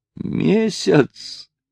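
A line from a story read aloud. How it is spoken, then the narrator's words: Exclaiming with silent laughter. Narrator (Russian): воскликнул Натти, смеясь своим беззвучным смехом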